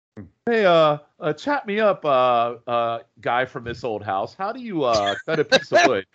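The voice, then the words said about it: Dopey put-on Southern accent, Eeyore-like. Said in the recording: “southern accent ... What the hell is that? ... my Southern accent sounds like Eeyore ... Sound like a fucking character from King of the Hill ... made them sound really dumb”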